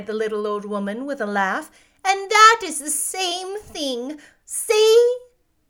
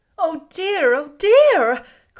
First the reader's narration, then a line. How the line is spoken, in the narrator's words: cried Dorothy, in dismay